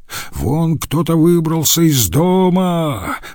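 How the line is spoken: Man shouting. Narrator (Russian): закричал какой-то мужчина

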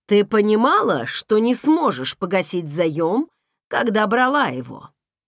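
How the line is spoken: Plain. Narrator (Russian): спросил он

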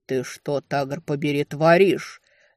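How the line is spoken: Bestial growl. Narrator (Russian): совсем по-звериному прорычал

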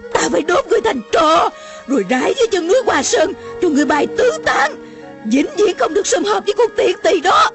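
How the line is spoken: Furious old woman yelling. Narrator (Vietnamese): Lửa gan bốc lên, lòng bỗng như bị đốt, Mụ la lên

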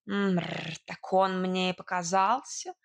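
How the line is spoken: Cat snorting. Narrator (Russian): фыркнул кот

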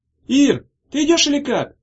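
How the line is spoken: Shouted from below. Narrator (Russian): крикнули снизу

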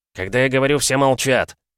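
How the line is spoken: Barked. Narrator (Russian): рявкнул Кирюхин

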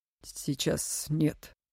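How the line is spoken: Spoken through clenched teeth. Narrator (Russian): сквозь зубы произнес он

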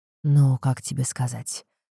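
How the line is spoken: Sighing father. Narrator (Russian): вздохнул отец

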